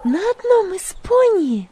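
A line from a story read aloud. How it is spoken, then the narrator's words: Exclaimed. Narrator (Russian): воскликнула Магдалина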